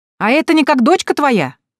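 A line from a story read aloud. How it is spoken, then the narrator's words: Shouted after someone. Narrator (Russian): крикнула вдогонку тетка Анна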